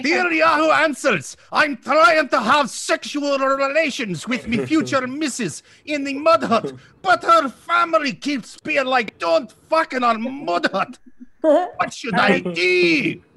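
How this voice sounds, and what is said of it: Good put-on Scottish accent. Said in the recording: “That's the best Scottish accent I've ever. ... That was very good. ... I was impressed with no practice.”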